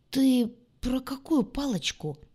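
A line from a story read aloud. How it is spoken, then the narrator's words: Strained hoarse drawl. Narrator (Russian): почему-то сдавленно протянул Толик сиплым голосом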